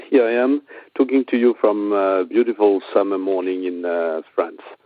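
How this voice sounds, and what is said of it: French accent. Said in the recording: “I hope you're all familiar with the French accent.”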